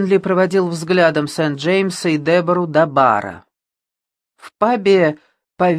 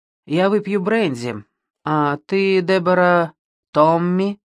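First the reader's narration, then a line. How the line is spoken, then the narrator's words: Calm. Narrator (Russian): Сент-Джеймс спокойно произнес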